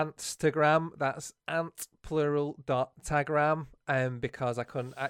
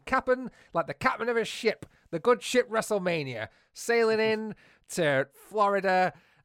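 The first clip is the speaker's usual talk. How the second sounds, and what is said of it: Put-on farmer-like accent. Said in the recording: “talking like a farmer. Yar.”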